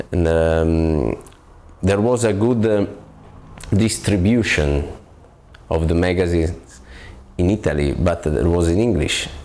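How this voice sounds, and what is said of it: Heavy foreign accent, musical lilt. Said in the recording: “what a terrible accent. There is, however, something very musical about it.”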